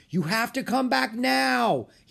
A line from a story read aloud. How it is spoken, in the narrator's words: he shouted